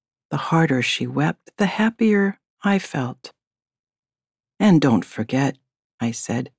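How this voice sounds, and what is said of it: Usual voice. Nothing is said of it.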